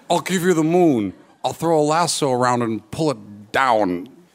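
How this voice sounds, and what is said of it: Imitates another person's voice. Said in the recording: “Your date does their best impression of Jimmy Stewart ... Oh, this is a terrible Jimmy Stewart.”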